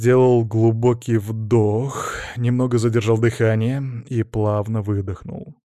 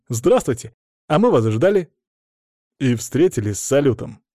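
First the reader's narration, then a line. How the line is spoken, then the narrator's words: Snort. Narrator (Russian): хмыкнул Островский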